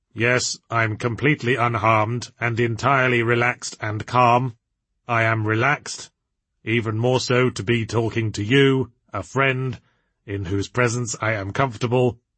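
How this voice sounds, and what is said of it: Slow monotone voice. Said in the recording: “in a slow monotone”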